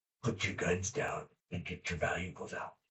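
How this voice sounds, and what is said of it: Dangerous drunk-sounding whisper. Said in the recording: “I guess it's kind of a whisper, but like a drunk, like a dangerous voice”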